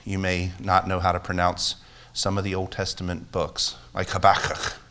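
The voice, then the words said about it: Hebrew accent on a word. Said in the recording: “that was my Hebrew accent coming out”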